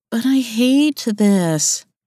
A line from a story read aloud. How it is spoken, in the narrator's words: whined